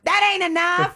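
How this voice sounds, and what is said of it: Southern American accent. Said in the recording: “You got to do it in your southern accent there.”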